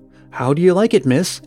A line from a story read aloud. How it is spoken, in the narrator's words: asked rather anxiously